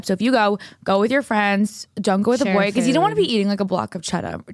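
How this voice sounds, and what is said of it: Boston accent. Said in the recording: “the Boston accent. It's happening. After, like, you know, 28 years, here it is.”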